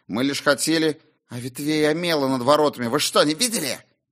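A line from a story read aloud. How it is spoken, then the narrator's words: Young man's sudden angry hiss. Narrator (Russian): Вдруг злобно прошипел юноша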